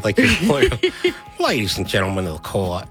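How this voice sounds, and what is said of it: Attempted Southern American lawyer accent. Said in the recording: “lawyers in a Southern movie ... I can't do that accent.”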